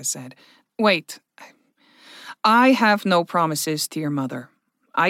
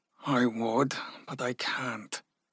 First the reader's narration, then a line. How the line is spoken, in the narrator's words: Ragnar said softly